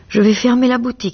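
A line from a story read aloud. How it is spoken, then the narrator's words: Exaggerated calm exclamation. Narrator (French): s'écria Harry avec un sang-froid exagéré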